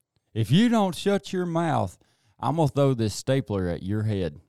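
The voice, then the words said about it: Imitates another person's voice. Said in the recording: “my best Coach Weaver impression”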